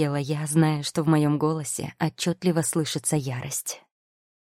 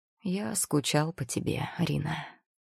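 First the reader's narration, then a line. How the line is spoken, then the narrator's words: Sad, quiet. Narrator (Russian): с грустной интонацией негромко произнес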